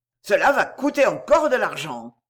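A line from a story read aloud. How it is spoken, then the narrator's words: Growl. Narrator (French): gronda-t-il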